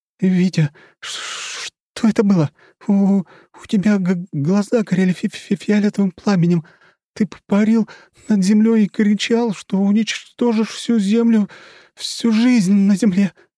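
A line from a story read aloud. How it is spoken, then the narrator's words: Stammering, forced out. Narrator (Russian): заикаясь, выдавила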